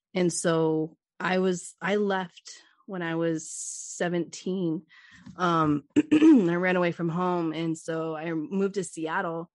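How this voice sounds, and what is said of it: Hoarse voice. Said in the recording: “my voice has been like hoarse.”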